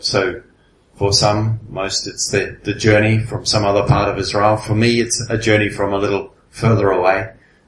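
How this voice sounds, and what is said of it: English accent. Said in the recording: “Maybe you guessed from my accent. ... where I live in England”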